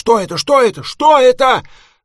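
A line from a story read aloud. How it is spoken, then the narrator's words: Terrified scream. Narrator (Russian): Я ужасно испугался и закричал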